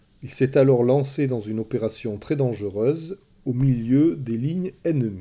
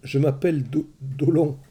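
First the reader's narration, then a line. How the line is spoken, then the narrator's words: Terrified captive stammering. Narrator (French): bredouilla le captif terrorisé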